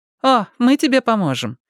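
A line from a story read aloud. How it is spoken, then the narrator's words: Cheerful remark. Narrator (Russian): весело заметила Мэтти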